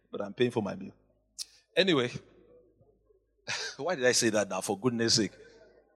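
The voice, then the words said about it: Nigerian accent. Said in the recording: “my Nigerian ... obviously, you can hear my accent. I'm not from here.”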